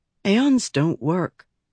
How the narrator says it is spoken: Idotris said

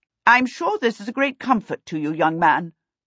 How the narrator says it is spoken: Princess Hilda said bitterly

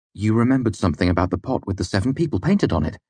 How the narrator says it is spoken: I asked excitedly

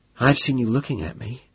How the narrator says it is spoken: says, panting

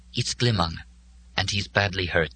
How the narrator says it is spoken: Molly said quietly

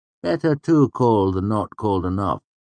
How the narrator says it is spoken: he said with a humorless chuckle

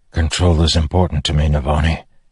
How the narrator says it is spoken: he said, his voice hoarse

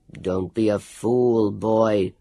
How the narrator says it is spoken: she heard him growl

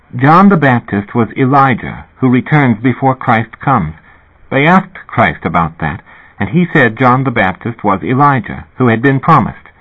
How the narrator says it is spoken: she now said calmly

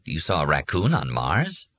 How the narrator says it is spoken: The Whitlock chuckled

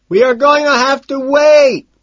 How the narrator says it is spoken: I scream louder

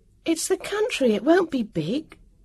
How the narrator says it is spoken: Vivian said soothingly

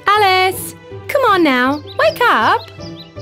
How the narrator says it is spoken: Her sister called out

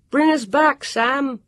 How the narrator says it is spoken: He shouted, so that the room rang

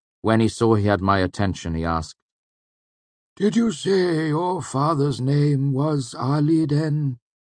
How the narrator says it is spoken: He asked it very calmly, with no hint of regret or apology in his voice

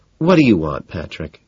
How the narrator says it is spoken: She sighs

